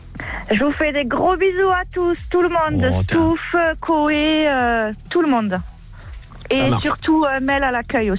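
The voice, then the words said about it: Southern French accent from Albi. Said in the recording (French): “T'as vu l'accent, à mon avis, on est du côté d'Albi. ... On est dans le sud, au soleil. ... C'est un accent qui est très particulier. ... Autour d'Albi. Il est bien particulier.”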